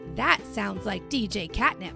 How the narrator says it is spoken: Gabby said

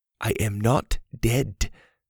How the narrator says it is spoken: the girl said slowly

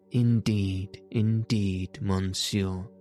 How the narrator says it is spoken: replied

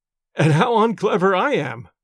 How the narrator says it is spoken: said the clergyman, laughing

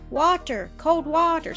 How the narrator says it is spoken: sobbed Don

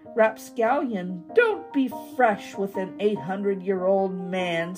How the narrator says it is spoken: snapped the old man

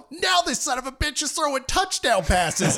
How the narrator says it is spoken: the same lady screams out

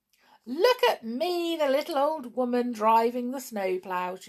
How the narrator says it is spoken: she laughed

